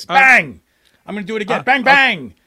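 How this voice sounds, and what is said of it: Pretty good broadcaster impression. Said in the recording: “You do a pretty good impression.”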